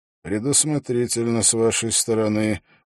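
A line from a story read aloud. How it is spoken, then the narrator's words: Grim, smiling. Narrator (Russian): мрачно улыбнулся Холт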